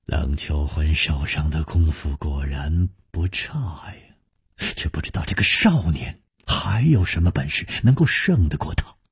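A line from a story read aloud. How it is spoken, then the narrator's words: Quiet sigh. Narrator (Chinese): 楚留香暗叹说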